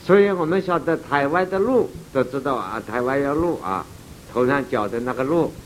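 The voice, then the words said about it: Strong regional accent. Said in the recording (Chinese): “我的口音不晓得诸位听懂吧？”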